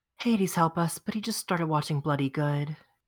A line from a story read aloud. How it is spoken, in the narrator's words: said with a sigh